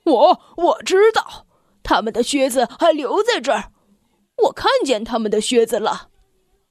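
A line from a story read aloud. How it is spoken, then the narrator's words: Boar shouting loudly. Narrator (Chinese): 野猪贝贝尔特立马大声的叫道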